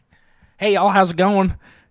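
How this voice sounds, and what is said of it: Fast put-on Southern accent. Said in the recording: “Talk in a southern accent, but speed it up.”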